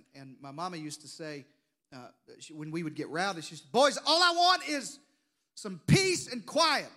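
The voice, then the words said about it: Deep South American accent. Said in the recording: “I grew up in the Deep South, if you hadn't noticed from the accent.”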